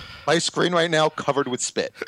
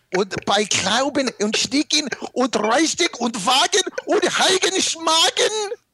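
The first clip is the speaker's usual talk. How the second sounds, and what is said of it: Mock German gibberish. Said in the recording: “It doesn't mean anything, but it sounds so German.”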